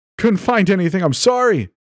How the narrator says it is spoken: he screamed

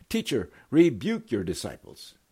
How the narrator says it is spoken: some Pharisees in the crowd shouted to Jesus

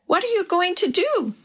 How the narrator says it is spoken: she asked in a tiny childish voice

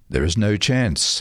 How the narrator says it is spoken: a spokesman said

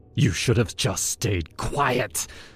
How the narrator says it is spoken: he hissed, his hands tightening around my throat

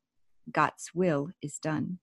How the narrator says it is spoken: In a soft but stern tone, he said

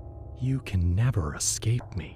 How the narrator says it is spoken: he whispered

